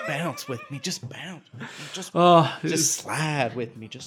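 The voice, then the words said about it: Put-on strong Southern accent. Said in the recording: “why does he have such a strong Southern accent? He's from Philadelphia.”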